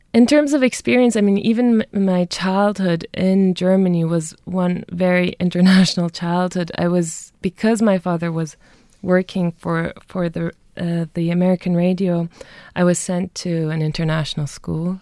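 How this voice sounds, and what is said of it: Slightly American accent. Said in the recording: “hence the slightly American accent as well”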